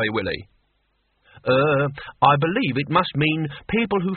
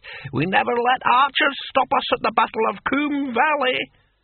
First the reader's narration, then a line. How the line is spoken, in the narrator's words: cackled the antique barbarian